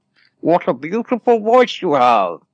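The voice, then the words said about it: Imitates a movie villain's voice. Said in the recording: “That's my Bane voice. ... That's pretty good. ... That's really good.”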